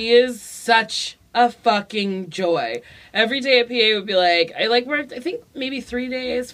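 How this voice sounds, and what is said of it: Usual voice. Nothing is said of it.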